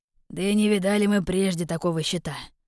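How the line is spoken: Grumbled. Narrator (Russian): проворчал Немир

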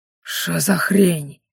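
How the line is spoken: Puzzled whisper. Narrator (Russian): с недоумением прошептал он

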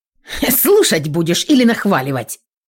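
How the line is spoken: Snapping retort. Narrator (Russian): Огрызнулся друг

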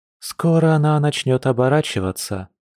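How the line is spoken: Mother reminding with deep sigh. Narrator (Russian): напомнила мама девушки, глубоко вздохнув

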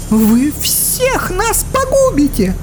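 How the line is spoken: Scream. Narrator (Russian): завопила Элина

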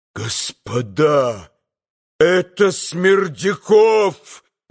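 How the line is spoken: Sudden full-force shout. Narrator (Russian): закричал он вдруг изо всей силы

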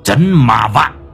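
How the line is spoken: Harsh, emphatic. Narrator (Vietnamese): Lão Năm gằn giọng

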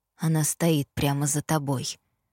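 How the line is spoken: Whisper. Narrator (Russian): прошептал Итан

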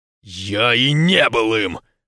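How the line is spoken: Harsh bark. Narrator (Russian): рявкнул Скарк

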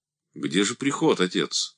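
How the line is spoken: Dry question. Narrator (Russian): сухо спросил Андрей

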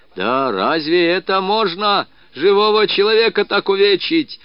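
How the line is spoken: Loud male yelling. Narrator (Russian): орал он на весь кабак

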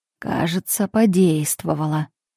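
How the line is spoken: Undertone. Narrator (Russian): Марин проговорил вполголоса

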